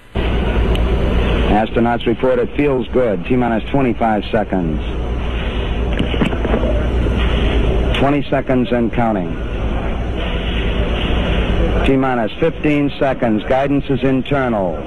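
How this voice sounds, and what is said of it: Slight Boston accent. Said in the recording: “You might be able to hear a slight Boston accent.”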